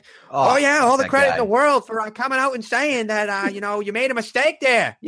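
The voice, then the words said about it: Imitates another person's voice. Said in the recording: “that's a pretty good Mad Dog impression. ... That's really good Mad Dog.”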